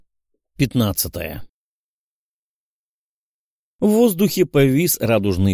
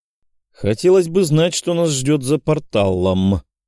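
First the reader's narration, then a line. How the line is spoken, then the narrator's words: Distrustful grumble. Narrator (Russian): с недоверием проворчал Николай Кузнецов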